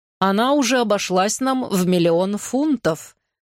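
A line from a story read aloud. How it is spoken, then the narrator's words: Plain. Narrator (Russian): сказал архиепископ Уэрхэм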